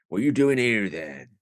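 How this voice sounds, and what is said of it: Imitated voice of a station guard. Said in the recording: “There's a station guard that comes in and he goes ... this is a very good impression ... This is very high class.”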